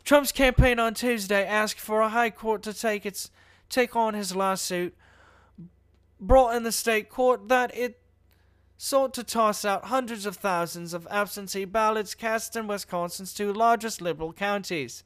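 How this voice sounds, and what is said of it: British newscaster voice. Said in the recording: “in a newscaster voice ... apparently it's British, okay, apparently we're on BBC”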